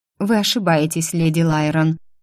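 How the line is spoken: Plain. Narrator (Russian): ответила Эстер

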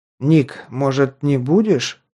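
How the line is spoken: Timid. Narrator (Russian): робко подал голос Джан

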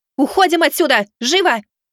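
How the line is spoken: Shout. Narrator (Russian): выкрикнула Миваки

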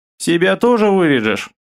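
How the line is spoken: Chuckling. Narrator (Russian): хохотнул собеседник

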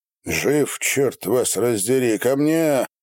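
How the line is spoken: Growled. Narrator (Russian): прорычал Степан

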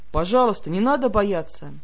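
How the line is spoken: Low muffled rumble. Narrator (Russian): глухо пророкотал

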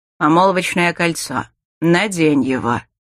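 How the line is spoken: Through gritted teeth. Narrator (Russian): Сквозь зубы процедил брюнет

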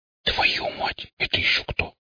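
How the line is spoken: Involuntary startled whisper. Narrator (Russian): невольно прошептал

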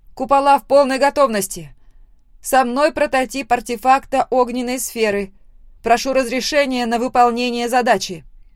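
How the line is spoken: Loud confident report. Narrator (Russian): Громко и уверенно доложила я

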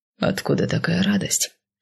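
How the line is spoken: Quieter whisper. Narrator (Russian): шепнул он уже тише

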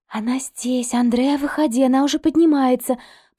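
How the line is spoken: Hissing whisper from outside. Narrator (Russian): послышался снаружи свистящий шепот Эмили

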